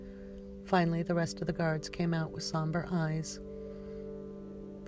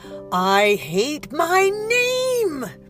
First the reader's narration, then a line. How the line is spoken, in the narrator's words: Persephone yelled at the top of her lungs